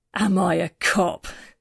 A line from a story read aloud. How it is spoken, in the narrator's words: he laughed